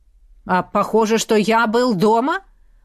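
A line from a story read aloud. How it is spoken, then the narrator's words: Snapping retort. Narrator (Russian): огрызнулся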